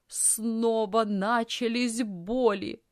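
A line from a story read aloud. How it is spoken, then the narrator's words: Aunt moaning. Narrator (Russian): застонала тетя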